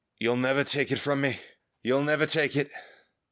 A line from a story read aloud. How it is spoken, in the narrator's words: from the other side of the rock barricade came the moan